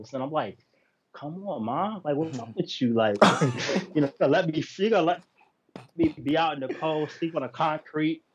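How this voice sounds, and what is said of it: New York accent. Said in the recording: “with that true New York accent.”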